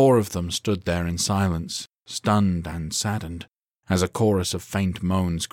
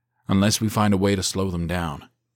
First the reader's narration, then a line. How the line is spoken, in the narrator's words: Zion replied